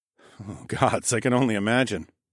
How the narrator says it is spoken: I chuckled

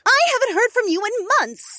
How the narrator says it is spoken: Sarahi exclaimed

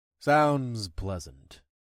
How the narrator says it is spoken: I grumbled

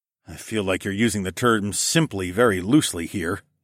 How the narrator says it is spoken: I grumbled

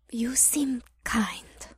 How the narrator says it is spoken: Cleo said in a quiet hiss

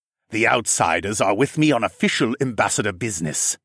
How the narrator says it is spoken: Siskern barked

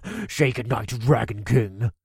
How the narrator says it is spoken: he cackled

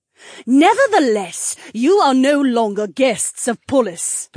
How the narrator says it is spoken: the Duchess snarled

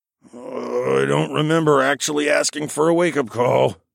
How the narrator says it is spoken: grumbled

